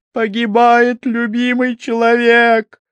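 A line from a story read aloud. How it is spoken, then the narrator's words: Shouting. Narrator (Russian): закричала она в лицо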